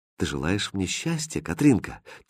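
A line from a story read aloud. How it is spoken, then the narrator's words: Quiet question. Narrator (Russian): тихо спросил Хрустальт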